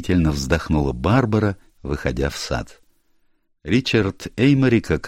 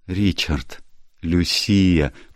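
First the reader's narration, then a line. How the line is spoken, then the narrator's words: Startled uncertain whisper. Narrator (Russian): Вздрогнув при виде своего мужа, она неуверенно прошептала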